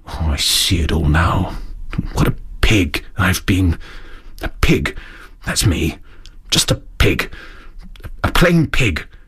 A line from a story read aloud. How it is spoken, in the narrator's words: he muttered gloomily